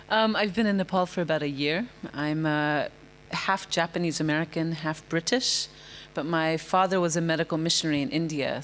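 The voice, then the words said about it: American accent with British slips. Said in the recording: “I love the American accent, except when you said British. I thought, I heard the British come out when you said British ... it's a sliding accent.”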